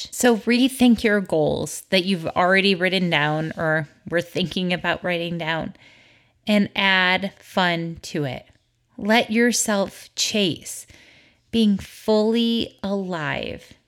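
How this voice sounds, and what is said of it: Voice with a slight cold. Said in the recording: “If you can't tell, I have a little bit of a cold.”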